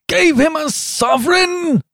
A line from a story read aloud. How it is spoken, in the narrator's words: shouted Trevor, and he burst into a roar of laughter